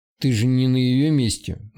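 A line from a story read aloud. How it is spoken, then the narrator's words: Gloomy grunt. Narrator (Russian): мрачно хмыкнул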